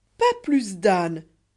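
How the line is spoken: Lord exclaiming. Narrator (French): s'écria le seigneur Kéraban

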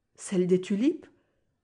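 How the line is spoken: Exclaimed. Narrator (French): s'écria Van Baarle

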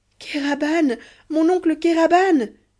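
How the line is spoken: Exclaimed. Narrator (French): s'écria Ahmet

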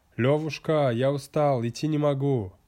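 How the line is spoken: Shouting. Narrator (Russian): Ваня закричал

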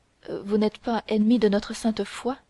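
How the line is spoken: Stammering. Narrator (French): dit-elle en balbutiant

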